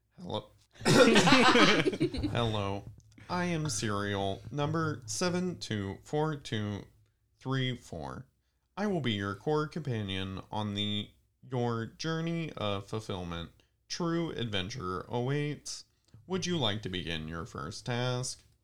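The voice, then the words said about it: Robot voice. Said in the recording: “Do it in a robot voice.”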